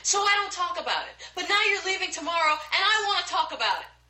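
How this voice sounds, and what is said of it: Raised, loud voice. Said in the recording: “lower your voice a little bit”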